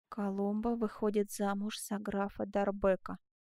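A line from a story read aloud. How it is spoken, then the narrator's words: Whisper. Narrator (Russian): прошептал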